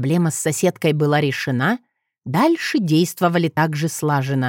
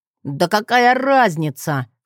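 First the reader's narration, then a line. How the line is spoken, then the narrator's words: Snort. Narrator (Russian): фыркнул Джет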